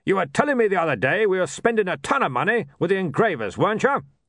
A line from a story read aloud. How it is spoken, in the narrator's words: He barked